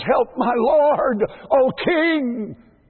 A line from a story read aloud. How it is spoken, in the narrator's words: A woman's voice cries